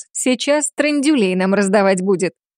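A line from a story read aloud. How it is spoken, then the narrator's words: Cheerful snort. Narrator (Russian): Весело фыркнула Йосика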